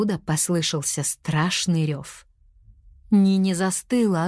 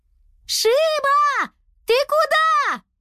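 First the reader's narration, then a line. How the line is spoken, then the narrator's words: Yelled. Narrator (Russian): завопила Нини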